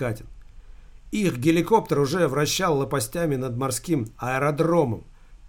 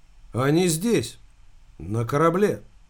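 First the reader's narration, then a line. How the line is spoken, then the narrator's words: Very calm officer. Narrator (Russian): Американский морской офицер разговаривал с Катиным очень спокойно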